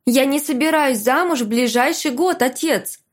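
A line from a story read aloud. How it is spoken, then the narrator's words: Shouted reply. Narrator (Russian): крикнула я в ответ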